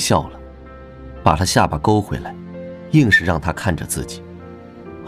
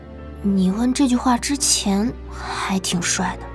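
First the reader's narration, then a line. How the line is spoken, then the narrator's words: Quiet voice. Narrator (Chinese): 朱韵小声说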